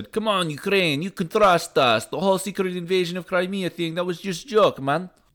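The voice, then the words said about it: Put-on Russian accent. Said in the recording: “That's my best Russian accent, apparently.”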